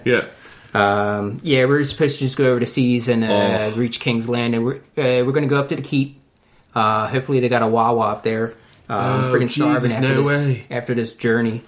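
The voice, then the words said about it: Thick put-on Delco accent. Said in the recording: “he speaks with a thick Delco accent.”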